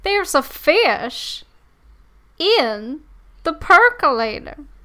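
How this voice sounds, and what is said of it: Impression of the Fish in the Park. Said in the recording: “We should do our impressions of the Fish in the Park... Give us your impression”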